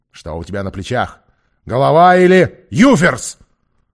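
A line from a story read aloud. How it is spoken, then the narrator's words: Shouting. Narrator (Russian): закричал долговязый Джон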